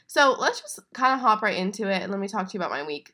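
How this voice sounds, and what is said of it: Congested, sore-throated sick voice. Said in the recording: “I am sick right now, so if I sound kind of funny, that is definitely why. Very congested, definitely have a sore throat ... apologies if I sound gross ... I feel like I'm yelling right now, trying to like have any kind of energy in my voice. Um, it definitely sound weird.”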